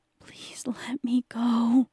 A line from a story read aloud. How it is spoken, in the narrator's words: he pleaded